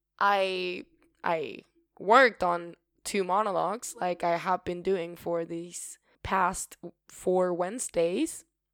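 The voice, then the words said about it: Raspy, hoarse voice. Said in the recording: “my voice is really, I don't know if you can notice it, but I can certainly feel it. It feels really raspy”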